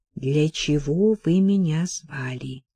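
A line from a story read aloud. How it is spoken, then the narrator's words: Whisper. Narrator (Russian): Сильви прошептала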